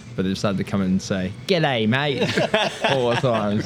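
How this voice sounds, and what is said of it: American attempt at Australian accent. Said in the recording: “That was a pretty good American version of an Australian accent.”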